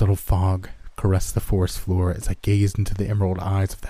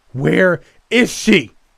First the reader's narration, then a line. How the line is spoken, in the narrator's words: I screamed out, begging my victim